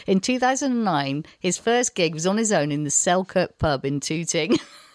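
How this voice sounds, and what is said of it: Northern English accent. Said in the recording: “I've got this northern accent”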